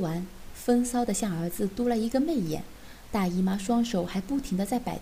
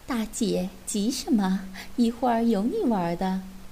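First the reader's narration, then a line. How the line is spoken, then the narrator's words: Laughing. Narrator (Chinese): 不禁笑道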